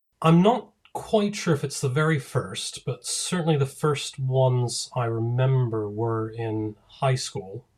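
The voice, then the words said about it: American accent with British, Irish-like tinge. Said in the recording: “Americans think I sound British. People over here don't quite know where I'm from. They're like, well, you're not British, but you might be Irish. You might be Canadian. ... it sounds kind of Irish”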